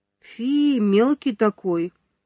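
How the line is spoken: Disappointed drawl. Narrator (Russian): разочарованно протянула Маня

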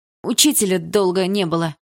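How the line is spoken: Shout. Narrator (Russian): выкрикнул кто-то

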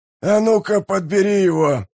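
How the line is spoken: Growl. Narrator (Russian): зарычал сержант Бардук

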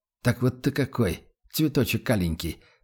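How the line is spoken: Muttering. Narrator (Russian): пробормотал он

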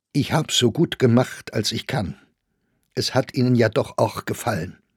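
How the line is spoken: Slightly trembling voice. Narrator (German): sagte dieser mit leicht zitternder Stimme

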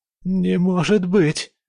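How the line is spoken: Hoarse rasp. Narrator (Russian): Прохрипела она

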